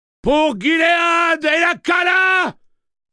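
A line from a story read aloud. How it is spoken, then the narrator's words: Roared. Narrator (French): rugit-il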